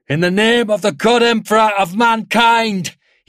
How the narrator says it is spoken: called out

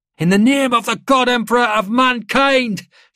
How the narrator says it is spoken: shouted

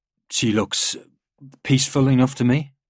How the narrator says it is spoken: Benedict stammered

